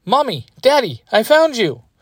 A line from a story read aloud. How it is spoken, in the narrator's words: Yui shouts